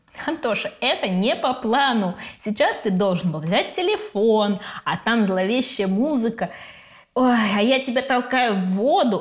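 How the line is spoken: Breaking into laughter. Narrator (Russian): Али не может дальше говорить, начинает смеяться

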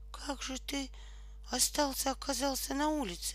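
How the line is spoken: Trembling voice. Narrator (Russian): дрожащим голосом спросил Кокосик

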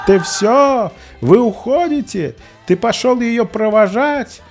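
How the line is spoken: Tired shouted retort. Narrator (Russian): Продолжая сыпать колкостями, но уже изрядно подустав, крикнул в ответ

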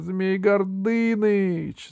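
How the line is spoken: Shouted. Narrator (Russian): закричала она

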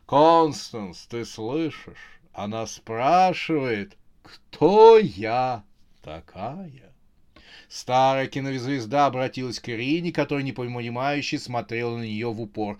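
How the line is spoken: Chuckling. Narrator (Russian): Фон Лебедянский хохотнула и сказала

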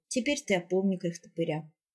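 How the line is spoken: Sad. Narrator (Russian): печально сказал он

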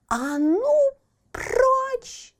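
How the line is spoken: Shouted. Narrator (Russian): закричала Барбариска

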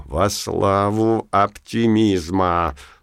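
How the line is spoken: Purring. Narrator (Russian): промурлыкал Верховный

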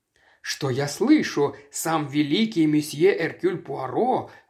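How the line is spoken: Exclaiming. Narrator (Russian): воскликнул Бартон Рассел

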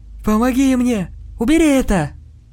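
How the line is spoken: Shouting. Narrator (Russian): Мэтт закричал

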